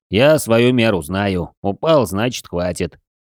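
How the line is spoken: Gloomy. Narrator (Russian): мрачно поддержал Серж

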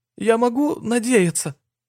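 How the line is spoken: Whimpered. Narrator (Russian): прохныкал

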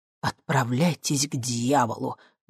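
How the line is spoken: Breathed out. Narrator (Russian): выдохнул я

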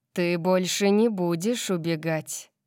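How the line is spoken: Growled. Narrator (Russian): прорычал он

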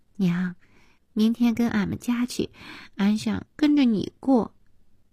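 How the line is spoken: Little girl, after laughing. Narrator (Chinese): 笑完之后，小女孩说

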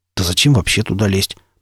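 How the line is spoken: Muttered. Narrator (Russian): пробормотал он

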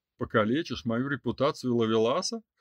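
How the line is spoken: Smirking. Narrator (Russian): хмыкнул Радиф

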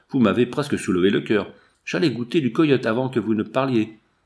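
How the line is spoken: Hunter exclaiming. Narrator (French): s'écria un chasseur

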